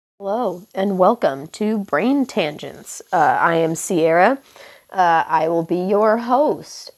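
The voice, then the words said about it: Hoarse, congested sick voice with sniffing. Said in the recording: “my voice is really fucked right now because I'm getting over some strep throat and a sinus infection... you're going to hear me snuff and sniff and my voice sounds a little fucked”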